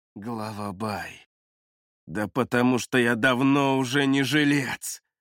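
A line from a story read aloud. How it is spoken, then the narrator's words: Growl. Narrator (Russian): Прорычал Вэйюэ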